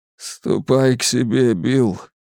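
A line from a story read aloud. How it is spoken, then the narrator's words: Father's choked, trembling voice. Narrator (Russian): ответил отец сдавленным, дрожащим голосом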